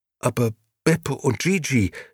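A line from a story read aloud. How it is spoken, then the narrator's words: Stammering. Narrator (German): stammelte schließlich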